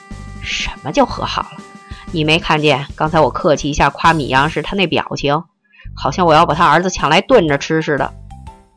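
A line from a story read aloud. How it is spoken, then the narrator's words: Sneering laugh. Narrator (Chinese): 韦妈妈冷笑一声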